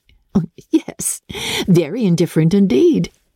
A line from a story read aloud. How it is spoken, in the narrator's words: said Elizabeth laughingly